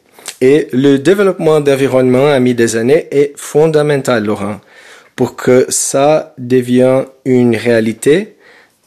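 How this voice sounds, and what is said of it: Melodic Brazilian-accented French. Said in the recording (French): “votre accent brésilien chante”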